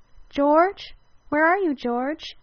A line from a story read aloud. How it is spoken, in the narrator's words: she cried, filled with nervous excitement